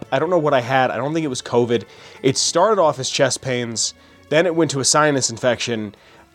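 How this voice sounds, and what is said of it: Congested, sick-sounding voice. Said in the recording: “You can still kind of hear it in my voice. I'm still a little mucused up... you might be able to hear it in my voice. How sick I might still sound to some sort of a degree.”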